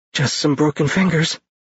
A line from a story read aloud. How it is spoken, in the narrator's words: he said shakily